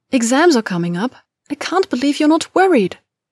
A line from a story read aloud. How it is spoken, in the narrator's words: Hermione exclaimed to Ron and Zabini at the Gryffindor table